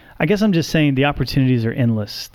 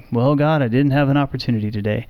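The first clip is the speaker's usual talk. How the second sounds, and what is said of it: Put-on Southern accent. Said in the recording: “I don't know why my tone of voice changes there ... Sounds Southern all of a sudden.”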